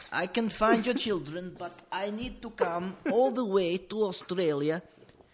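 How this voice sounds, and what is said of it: Put-on Dutch accent. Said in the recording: “I've got to do a Dutch accent now.”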